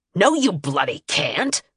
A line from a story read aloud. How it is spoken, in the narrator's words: Harkin snarled